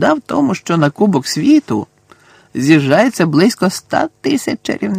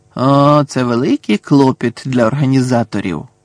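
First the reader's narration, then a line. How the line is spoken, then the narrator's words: Sigh. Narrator (Ukrainian): зітхнув містер Візлі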